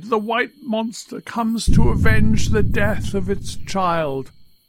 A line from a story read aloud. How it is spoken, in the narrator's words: they cried